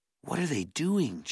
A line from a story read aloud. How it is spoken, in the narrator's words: Jared whispered